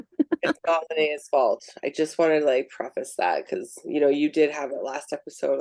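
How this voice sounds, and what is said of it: Husky sick-sounding voice. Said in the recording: “this sexy voice coming through ... now has COVID”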